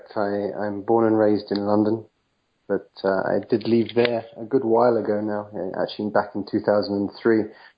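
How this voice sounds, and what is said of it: English accent. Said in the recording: “You have an accent. ... you're obviously an Englishman”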